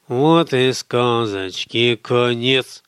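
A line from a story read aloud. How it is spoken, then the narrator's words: Purring to a lullaby tune. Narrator (Russian): промурлыкал Михаил на мотив колыбельной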